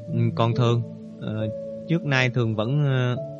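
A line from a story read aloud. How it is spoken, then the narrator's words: Hesitant question. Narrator (Vietnamese): Thủy Tiên ngập ngừng hỏi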